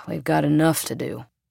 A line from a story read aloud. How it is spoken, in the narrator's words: The tall cop sighed and said